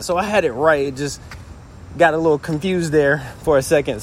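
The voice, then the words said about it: Out of breath, breathy speech. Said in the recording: “I'm out of breath, but it's because I'm walking.”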